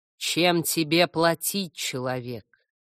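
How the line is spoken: Deep bass voice. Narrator (Russian): Самый большой из корневиков, высотой чуть ли не до моего подбородка, пробасил

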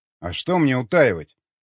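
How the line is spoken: Angry answer. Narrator (Russian): зло ответил Юрий

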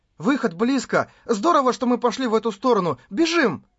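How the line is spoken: Joyful shout. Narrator (Russian): Радостно выкрикнул

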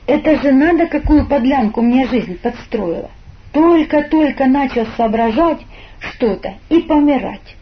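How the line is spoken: Groaning. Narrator (Russian): застонал

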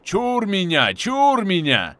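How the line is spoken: Startled yelling. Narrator (Russian): Заорал проснувшийся дядька Василия

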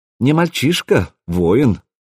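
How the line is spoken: Calm clarification. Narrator (Russian): спокойно уточнил Бури

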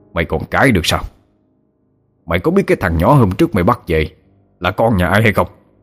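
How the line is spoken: Furious old man shouting. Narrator (Vietnamese): Lão tức điên lên, chỉ mặt nó mà quát

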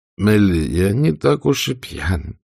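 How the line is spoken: Drunken mumble. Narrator (Russian): пробормотал Эшли

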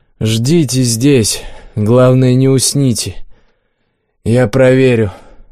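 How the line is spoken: Weary statement. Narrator (Russian): Макс устало заявил

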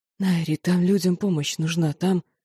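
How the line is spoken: Hoarse. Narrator (Russian): его хриплое

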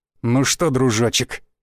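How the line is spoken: Gloating through teeth. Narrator (Russian): процедил череп, злорадно

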